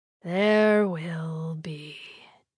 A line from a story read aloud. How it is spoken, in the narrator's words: Hekka drawled, his bored but bordering on furious tone unchanging